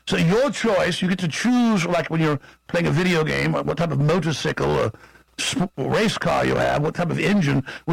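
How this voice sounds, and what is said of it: Posh English accent. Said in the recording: “a posh English accent”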